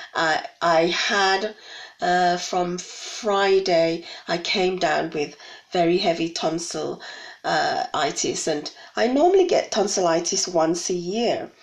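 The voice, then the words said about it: Hoarse voice. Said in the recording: “you might hear my voice a little bit hoarse.”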